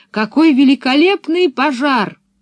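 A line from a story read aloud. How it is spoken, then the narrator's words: Shout. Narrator (Russian): крикнув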